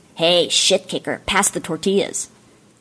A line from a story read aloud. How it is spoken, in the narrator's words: her brother, Hillary, sneered and said